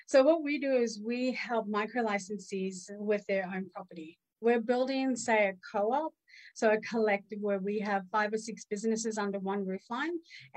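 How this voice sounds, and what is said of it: Australian accent. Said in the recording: “my accent, I'm from Australia”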